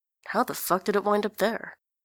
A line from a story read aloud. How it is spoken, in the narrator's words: he mutters to himself